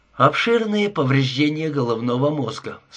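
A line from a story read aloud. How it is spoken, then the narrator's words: Calm. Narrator (Russian): спокойно сказал Гудиер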